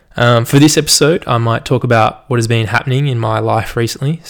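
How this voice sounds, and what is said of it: General Australian accent, moderate strength. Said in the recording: “It's not super strong. It's not weak. I think it's just like the majority of Australians, just kind of a normal accent... general is like my accent, which is kind of just normal”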